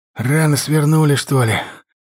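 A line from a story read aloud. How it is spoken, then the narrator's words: Annoyed hoarse rasp. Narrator (Russian): Досадливо прохрипел Серега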